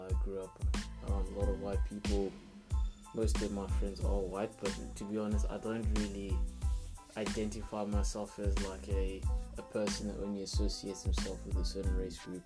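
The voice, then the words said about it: Suburban Pretoria South African accent. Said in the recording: “Born and raised in Pretoria. ... Grew up in the suburbs, as you can probably tell from my accent.”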